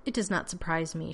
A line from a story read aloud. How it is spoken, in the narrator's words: she said dryly